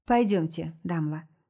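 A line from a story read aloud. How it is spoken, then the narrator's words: Plain. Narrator (Russian): говорит мне Адам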